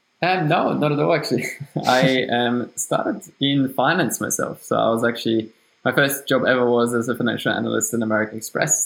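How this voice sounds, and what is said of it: German-speaking Austrian accent in English. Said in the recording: “you can hear from my accent that it's German. So I'm from Austria”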